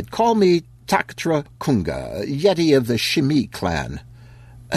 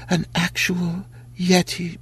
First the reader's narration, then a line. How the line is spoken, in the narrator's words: she mumbled